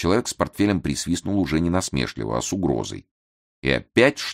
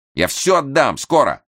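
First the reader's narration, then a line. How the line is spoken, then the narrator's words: Shouting out. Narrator (Russian): выкрикнул Лимбах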